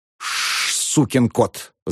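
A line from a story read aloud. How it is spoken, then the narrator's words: Angry hiss. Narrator (Russian): зашипел на него мсье Пьер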